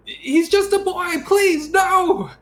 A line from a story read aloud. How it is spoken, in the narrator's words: she pleads